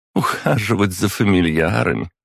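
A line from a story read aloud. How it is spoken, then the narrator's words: Laughing. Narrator (Russian): рассмеялась библиотекарь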